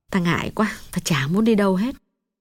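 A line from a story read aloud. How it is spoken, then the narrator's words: Sad quiet low voice. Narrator (Vietnamese): Mắt Hồng thoáng buồn, nàng hạ giọng nói nhỏ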